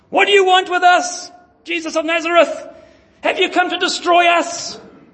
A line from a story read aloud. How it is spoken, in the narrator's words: this demon in the synagogue of Capernaum cries out at the top of his voice